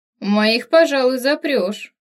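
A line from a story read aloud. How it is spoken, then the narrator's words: Grumbling wolf. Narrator (Russian): проворчал на это черный волк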